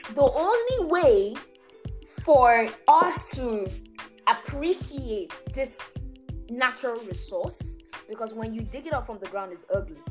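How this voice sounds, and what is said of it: Nigerian English accent. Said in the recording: “sorry for my Nigerian folks that know this elements accent”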